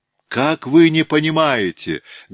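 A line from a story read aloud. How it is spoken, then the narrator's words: Heated exclamation. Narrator (Russian): горячо воскликнул Барков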